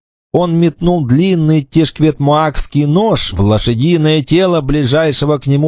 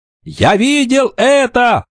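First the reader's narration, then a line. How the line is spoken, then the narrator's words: Shout. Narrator (Russian): закричал Кикаха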